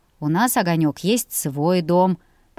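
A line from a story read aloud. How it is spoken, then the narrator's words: Grumbling. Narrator (Russian): проворчал муж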